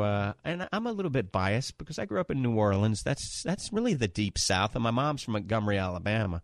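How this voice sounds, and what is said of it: Usual voice. Nothing is said of it.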